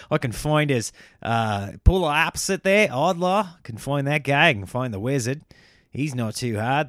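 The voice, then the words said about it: Put-on Australian accent. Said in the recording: “I'm switching accents. I'm now Australian.”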